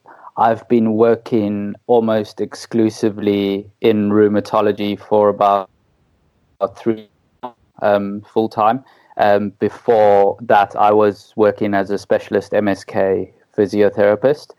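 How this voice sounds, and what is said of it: South African accent. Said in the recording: “your listeners can tell by my wonderful accent that I'm South African”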